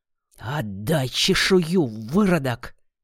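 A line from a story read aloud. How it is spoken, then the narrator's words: Hiss. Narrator (Russian): прошипел старший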